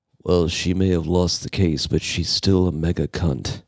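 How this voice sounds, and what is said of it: Imitates another person's voice. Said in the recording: “my Johnny Depp impression”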